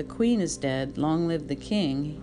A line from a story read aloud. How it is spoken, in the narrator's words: he had replied